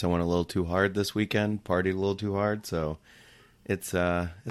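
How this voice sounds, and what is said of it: Worn, strained voice. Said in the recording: “apologize for my voice. ... it's a little wounded.”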